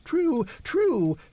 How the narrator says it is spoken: exclaimed Henry

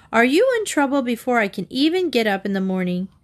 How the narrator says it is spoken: exclaimed her mother

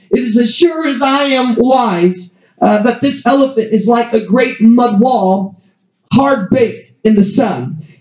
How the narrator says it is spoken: the first man at once cried out

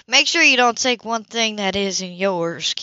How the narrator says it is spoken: Cammy snapped

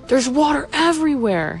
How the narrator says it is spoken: he screamed

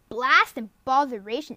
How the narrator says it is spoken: exclaimed Diggory

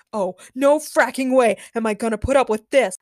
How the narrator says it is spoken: Larissa screamed

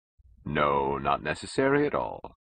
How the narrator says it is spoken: said Toohey cheerfully

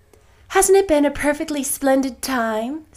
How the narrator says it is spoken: sighed Jane

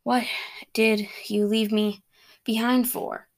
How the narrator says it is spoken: he said between breaths

